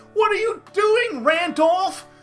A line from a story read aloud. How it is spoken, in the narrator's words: cried